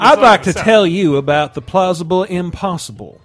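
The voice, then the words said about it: Quasi-Southern eccentric tycoon voice. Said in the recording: “some sort of weird quasi-Southern accent ... why does Disney sound like an eccentric Southern tycoon?”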